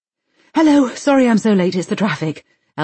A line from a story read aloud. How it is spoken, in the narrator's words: Elsa's mum pants out of breath